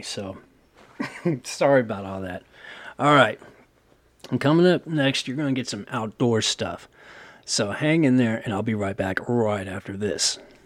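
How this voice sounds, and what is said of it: Failing, strained voice. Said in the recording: “sorry about my voice. I don't know what the hell's going on. All of a sudden, I started talking, and just my voice just totally shut down on me.”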